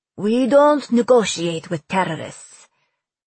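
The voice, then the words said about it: Emphasized Persian accent. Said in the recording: “emphasizing the Persian accent he often kept hidden”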